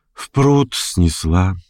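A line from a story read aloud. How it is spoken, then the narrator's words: Sighing. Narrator (Russian): вздохнула она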